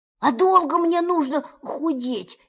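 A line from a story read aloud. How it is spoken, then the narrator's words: Frightened question. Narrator (Russian): испуганно спросил Пух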